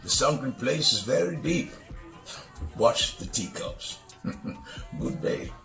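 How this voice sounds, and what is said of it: Speaking in a strong accent. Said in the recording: “I love his accent. I love his accent. He murdered that.”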